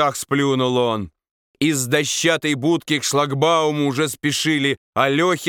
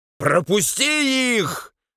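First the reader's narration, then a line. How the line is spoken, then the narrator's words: Shouting while chewing. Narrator (Russian): дожевывая на ходу, закричала она регулировщице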